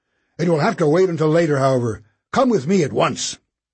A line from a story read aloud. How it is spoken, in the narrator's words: he snapped